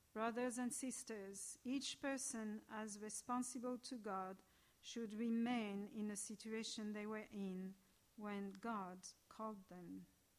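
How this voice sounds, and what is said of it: Accented female reading voice. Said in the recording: “What a lovely accent.”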